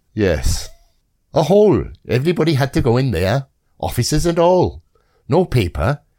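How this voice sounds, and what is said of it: Put-on Welsh accent. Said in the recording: “with a distinctive Welsh accent ... He sounded nothing like that.”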